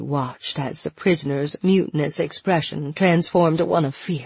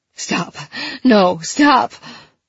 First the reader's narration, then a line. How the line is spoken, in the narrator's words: His voice was frantic, and his hatred toward her morphed into a plea for mercy